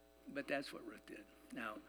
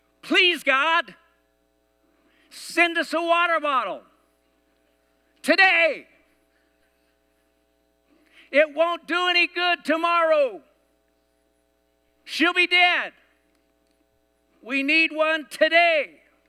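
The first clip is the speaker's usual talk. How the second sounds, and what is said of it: Yelling a prayer. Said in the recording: “Sorry for yelling”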